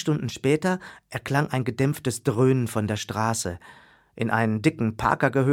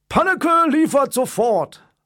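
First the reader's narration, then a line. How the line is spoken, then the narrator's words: Cheerful call. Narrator (German): rief er gut gelaunt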